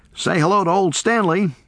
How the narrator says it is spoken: he called

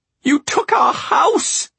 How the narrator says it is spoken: Tatiana screeched

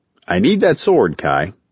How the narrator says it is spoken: he said, his tone matter-of-fact

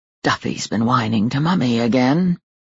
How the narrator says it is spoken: Ben curled his lip and whispered

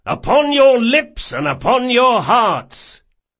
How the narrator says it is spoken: he shouted

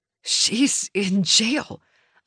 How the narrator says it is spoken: I wheezed

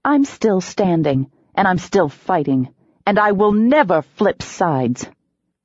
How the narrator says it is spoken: I said coldly

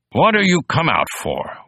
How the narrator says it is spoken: one of them barked at him

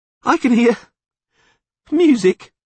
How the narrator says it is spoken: Dandelion suddenly sobbed

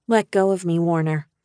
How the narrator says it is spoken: I said calmly

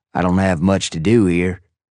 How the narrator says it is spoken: Cody continued, his southern drawl as thick as ever

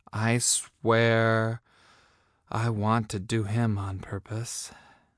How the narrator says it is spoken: I breathed

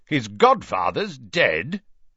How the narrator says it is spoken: said Uncle Vernon loudly

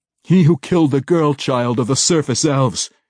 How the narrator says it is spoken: he cried, an accusation and no compliment

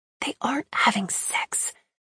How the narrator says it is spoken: I whispered

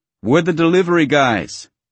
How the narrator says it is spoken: I yell

